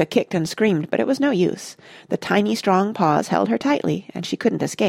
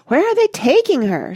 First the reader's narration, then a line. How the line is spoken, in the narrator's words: shrieked Mrs